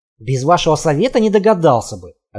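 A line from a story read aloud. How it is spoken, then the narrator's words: Snapping back. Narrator (Russian): огрызнулся Михаил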